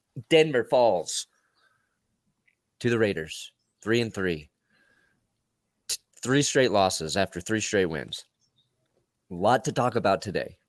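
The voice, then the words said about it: Worn-out, hoarse voice. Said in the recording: “I'm a little sunburnt, so you can tell my voice is shot. My precious, precious voice”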